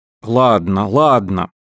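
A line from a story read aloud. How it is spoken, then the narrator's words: Plain. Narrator (Russian): сказал Колвилл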